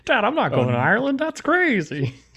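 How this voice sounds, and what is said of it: Imitates another person's voice. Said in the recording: “my Amy Adams impersonation”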